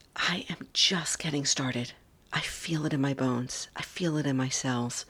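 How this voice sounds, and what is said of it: Excited whisper. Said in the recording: “I'm a little bit fired up, my friends, even though I'm keeping this to a whisper.”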